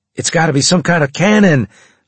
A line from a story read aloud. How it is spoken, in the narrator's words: I shouted